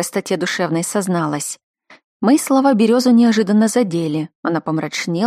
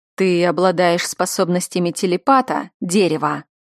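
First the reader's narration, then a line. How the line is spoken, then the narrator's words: Growling. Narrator (Russian): Рыкнул на нее Зан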